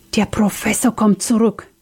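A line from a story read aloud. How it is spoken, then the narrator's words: Panicked whisper. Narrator (German): wisperte voller Panik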